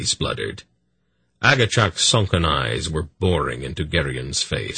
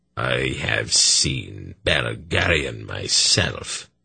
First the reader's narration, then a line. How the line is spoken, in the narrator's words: he intoned hollowly